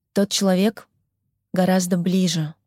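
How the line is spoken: Calm reply. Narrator (Russian): спокойно ответил Фолкнер

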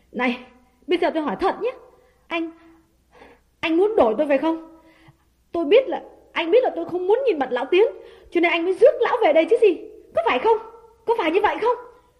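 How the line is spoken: Frightened trembling question. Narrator (Vietnamese): hãi hùng, run run hỏi

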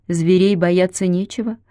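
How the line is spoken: Calm grandmother. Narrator (Russian): так же спокойно сказала бабушка

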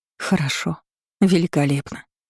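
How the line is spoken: Sigh. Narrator (Russian): вздохнула я

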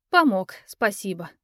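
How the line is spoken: Sigh. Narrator (Russian): вздохнула я

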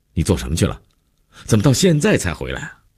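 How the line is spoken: Angry abrupt question. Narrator (Chinese): 姐夫一脸温怒，劈头就问

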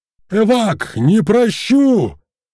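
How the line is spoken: Monstrous roar. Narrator (Russian): Взревел стальной монстр

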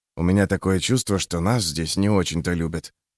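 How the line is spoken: Mumbled through closed lips. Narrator (Russian): пробормотал Юранд, не раскрывая рта

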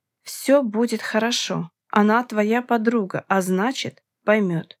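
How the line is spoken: Plain. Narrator (Russian): сказал мой муж

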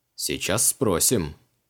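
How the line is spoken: Amused snort. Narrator (Russian): хмыкнул маг

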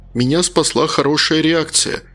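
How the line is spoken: Plain. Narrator (Russian): ответил Макар

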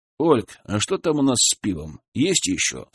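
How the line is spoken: Plain. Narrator (Russian): спросил Валера

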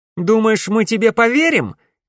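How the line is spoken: Shouted. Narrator (Russian): крикнула Камилла

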